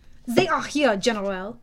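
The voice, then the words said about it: Weird French accent. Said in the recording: “spoke in his weird French accent.”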